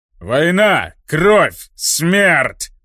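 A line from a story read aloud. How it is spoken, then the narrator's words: Orc baron shouting. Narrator (Russian): выкрикнул орк-барон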